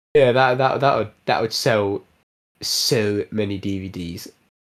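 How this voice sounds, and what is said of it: Comic altered silly voice. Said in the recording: “Why did you do a Donald Trump impression? ... That wasn't a Donald Trump impression. ... sounded a bit like one. ... it was just classic comic voice alteration. No person in mind.”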